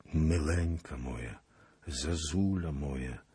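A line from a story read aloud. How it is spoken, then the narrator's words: Quiet menacing whisper. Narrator (Polish): szeptał cicho i groźnie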